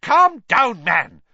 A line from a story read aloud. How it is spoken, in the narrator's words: Fudge barked